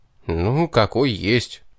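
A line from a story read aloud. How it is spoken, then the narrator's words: Hurt, grumbled. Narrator (Russian): уязвленно буркнул я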